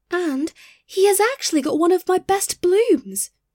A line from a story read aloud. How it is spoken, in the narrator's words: exclaimed the white rose tree